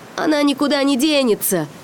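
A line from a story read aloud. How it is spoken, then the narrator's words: Shout after someone. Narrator (Russian): крикнул он вслед уходящему пирату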